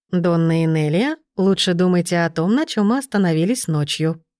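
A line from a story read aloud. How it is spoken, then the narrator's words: Purring into beard. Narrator (Russian): промурлыкал в бороду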